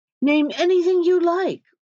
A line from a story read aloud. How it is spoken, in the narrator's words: cried the monarch, interrupting him